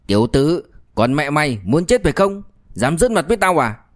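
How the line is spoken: Angry barking shout. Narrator (Vietnamese): Tên đầu, tức giận, quát

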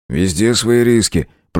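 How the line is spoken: Grumbled reply. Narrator (Russian): проворчал оперативник в ответ

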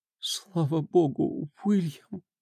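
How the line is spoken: Whispered. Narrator (Russian): прошептала Дженнифер

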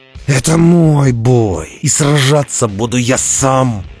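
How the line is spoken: Growling. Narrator (Russian): прорычал он

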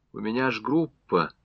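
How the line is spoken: Quiet objection. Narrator (Russian): негромко возразила Варвара Никитична

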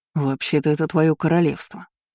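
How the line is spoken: Gentle remark. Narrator (Russian): мягко заметил Айнен

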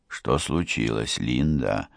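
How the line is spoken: Whisper. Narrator (Russian): прошептал я

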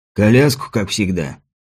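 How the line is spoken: Hoarse voice. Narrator (Russian): Один из встречающих хриплым голосом произнес

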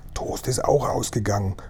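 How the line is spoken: Whisper. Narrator (German): flüsterte Mr

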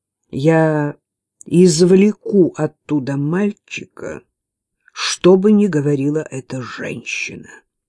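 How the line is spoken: Grim promise. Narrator (Russian): мрачным тоном пообещал он

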